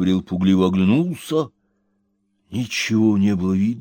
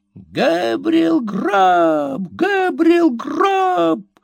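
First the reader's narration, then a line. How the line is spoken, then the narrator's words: Wild shrieking chorus. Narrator (Russian): взвизгнул дикий хор голосов, которые, казалось, заполонили кладбище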